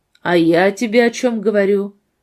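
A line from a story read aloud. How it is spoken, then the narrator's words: Rude, reproachful outburst. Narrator (Russian): Надежда не выдержала и грубо, с упреком произнесла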